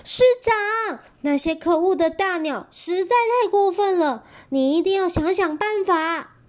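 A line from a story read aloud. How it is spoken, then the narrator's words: Frantic crowd shouting. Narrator (Chinese): 大家都快被搞疯了 大叫说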